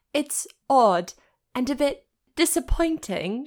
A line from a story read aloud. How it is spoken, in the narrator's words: she nodded, her breath coming in shallow gasps